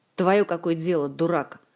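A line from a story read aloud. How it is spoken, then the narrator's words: Rude interruption. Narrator (Russian): грубо перебил его Диего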